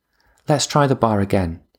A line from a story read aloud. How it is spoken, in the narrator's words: he said eventually